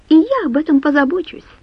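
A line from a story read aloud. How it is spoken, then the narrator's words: Snapped, young woman. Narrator (Russian): огрызнулась девушка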